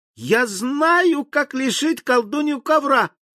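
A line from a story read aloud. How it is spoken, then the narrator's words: Cheerful shout. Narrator (Russian): весело закричала она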